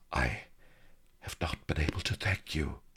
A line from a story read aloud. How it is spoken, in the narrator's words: she breathed